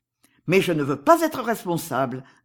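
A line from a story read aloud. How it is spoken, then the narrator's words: Plain. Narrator (French): dit Cerizet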